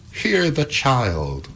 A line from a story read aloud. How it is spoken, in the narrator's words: cried Primrose with an air of superiority